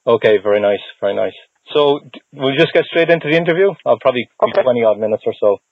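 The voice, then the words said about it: Irish accent. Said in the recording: “I know I don't have the Boston accent. I'm from Ireland ... I detected something foreign.”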